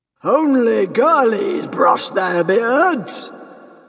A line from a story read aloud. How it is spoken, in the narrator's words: boomed Stoic the Vast